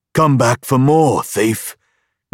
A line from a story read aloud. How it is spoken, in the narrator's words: the man growled